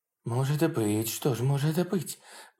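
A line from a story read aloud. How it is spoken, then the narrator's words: Muttered. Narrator (Russian): пробормотал он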